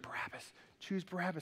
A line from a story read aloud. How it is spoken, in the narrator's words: The chief priests are whispering